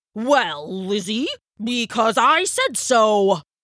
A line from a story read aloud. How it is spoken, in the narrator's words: roared the Elder